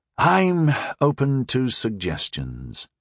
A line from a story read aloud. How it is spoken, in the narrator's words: said at last with a sigh